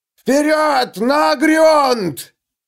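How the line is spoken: Shouting. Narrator (Russian): Лео крикнул Гловарду

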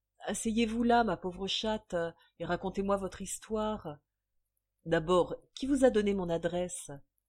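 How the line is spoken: Weak, despairing reply. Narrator (French): Morne, la désespérée, répondit faiblement

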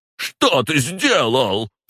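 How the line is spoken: Near-hysterical yell. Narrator (Russian): заорал чуть ли не в истерике

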